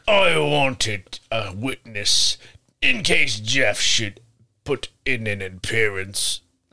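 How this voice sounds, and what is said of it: Australian accent attempt, sounds British. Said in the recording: “Give him an Australian accent. ... Oh, that's almost like it's British.”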